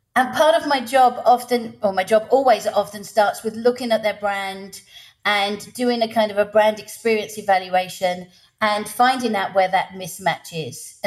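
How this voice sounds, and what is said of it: English accent. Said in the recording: “an English accent”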